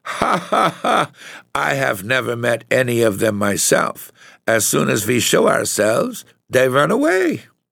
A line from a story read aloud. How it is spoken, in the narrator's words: the little Count began to laugh, for the wine had made him very merry, and said